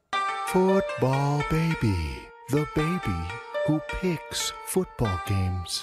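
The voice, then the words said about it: Creepy put-on voice. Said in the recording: “My creepy voice”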